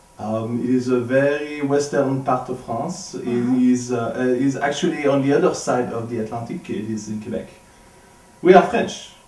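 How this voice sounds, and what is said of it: French Canadian accent. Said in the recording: “your accent sounds a little. Um, what, what part of France are you from? ... is he French Canadian?”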